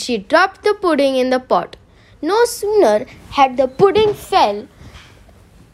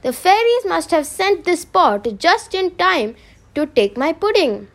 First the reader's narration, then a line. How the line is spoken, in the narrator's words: exclaimed